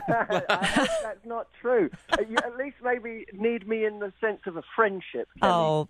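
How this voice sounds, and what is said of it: British accent. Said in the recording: “a good dose of that good old British accent”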